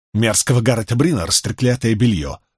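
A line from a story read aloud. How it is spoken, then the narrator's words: Snapping. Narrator (Russian): огрызнулась та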